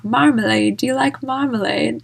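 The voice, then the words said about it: Put-on British accent. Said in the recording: “That was my British accent there.”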